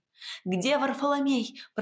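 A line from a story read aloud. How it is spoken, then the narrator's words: Shout. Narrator (Russian): прокричала я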